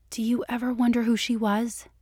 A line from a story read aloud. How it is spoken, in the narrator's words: Dana asked, deliberately keeping her voice gentle